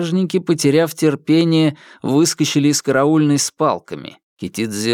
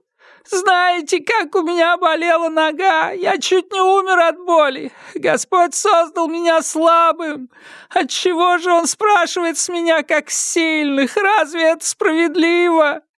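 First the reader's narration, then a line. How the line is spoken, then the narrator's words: Broken wailing with sobs. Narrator (Russian): Вопли то обрывались, то доносились снова, перемежаясь рыданиями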